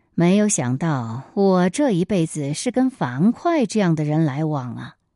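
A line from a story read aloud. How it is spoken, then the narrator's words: Sighing, sneering laugh. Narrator (Chinese): 韩信 总会感叹的冷笑说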